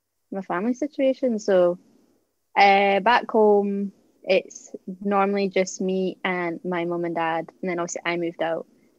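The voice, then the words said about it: Mild Scottish border accent. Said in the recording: “my accent's a bit weird. It's not like thick Scottish accent... on the borders of Scotland and England”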